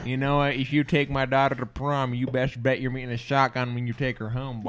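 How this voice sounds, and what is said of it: Put-on country accent. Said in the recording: “literally like country accent”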